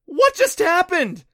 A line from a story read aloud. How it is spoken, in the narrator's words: shrieked as the hole in the wall got bigger, and an angry sphinx jammed its head through the wall to look for them